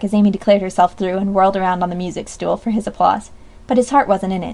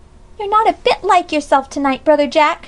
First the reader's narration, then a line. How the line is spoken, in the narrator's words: she cried with another pout